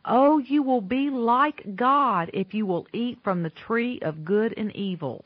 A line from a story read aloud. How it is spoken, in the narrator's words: Satan said